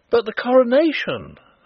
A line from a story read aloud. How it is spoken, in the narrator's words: I cried in horror